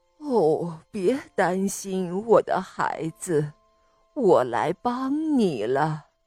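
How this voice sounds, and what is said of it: Low, soft voice. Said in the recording (Chinese): “他听到一个低低的声音说”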